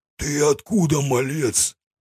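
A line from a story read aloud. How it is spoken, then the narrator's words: Hoarse wheeze in pain. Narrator (Russian): прохрипел он, кривясь от боли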